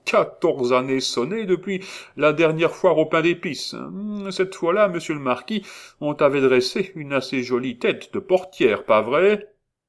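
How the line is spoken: Laughing. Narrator (French): fit en riant

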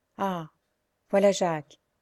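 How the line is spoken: Grumpy sighing. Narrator (French): fit d'un ton de mauvaise humeur, et avec un soupir

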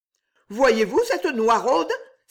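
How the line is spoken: Deeply offended exclamation. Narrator (French): s'écria Blanchette, horriblement vexée

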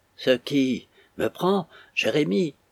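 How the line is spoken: Breathless. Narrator (French): répondit Mme Jérémie d'une voix haletante

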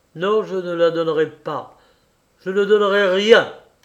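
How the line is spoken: Harsh exclamation. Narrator (French): s'écria d'une voix dure Snigirev

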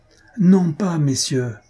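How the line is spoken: Loud full-voiced exclamation. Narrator (French): s'écria le marquis à pleine voix

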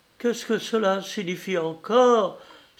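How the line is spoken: Crying out. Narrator (French): s'écria

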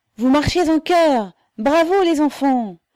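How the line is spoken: Enthusiastic yell. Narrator (French): hurla une voix enthousiasmée

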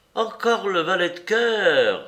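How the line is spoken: Maid exclaiming. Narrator (French): s'écria la soubrette

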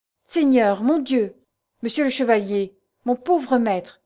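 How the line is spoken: Emotional exclamation. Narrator (French): s'écria-t-il avec émotion

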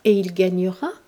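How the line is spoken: Plain question. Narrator (French): demanda Marie-Lise

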